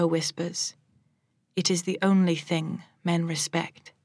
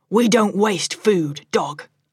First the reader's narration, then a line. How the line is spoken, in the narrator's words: Chika snarls